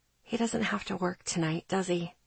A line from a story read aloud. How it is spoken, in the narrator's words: I asked quietly